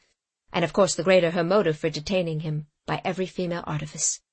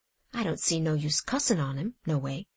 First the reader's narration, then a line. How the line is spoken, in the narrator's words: Sam muttered